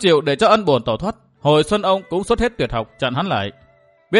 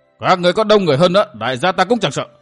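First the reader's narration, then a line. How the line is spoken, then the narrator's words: Furious loud shout. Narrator (Vietnamese): Thấy thuộc hạ bị tàn sát, Ân bổn thét lên một tiếng, miệng quát to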